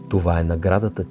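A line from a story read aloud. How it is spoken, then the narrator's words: Plain. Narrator (Bulgarian): каза бабата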